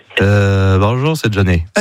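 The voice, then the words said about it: Nasal, congested imitation of another's voice. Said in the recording (French): “C'est Johnny qui parle du nez, quoi. Qui est enrhumé, quoi.”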